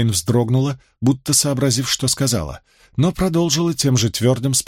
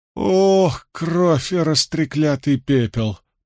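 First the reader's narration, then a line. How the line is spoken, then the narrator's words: Groan. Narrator (Russian): простонал Мэтт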